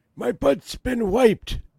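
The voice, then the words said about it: Joe Biden impression. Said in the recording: “Your Biden is so good. ... Good impression, man.”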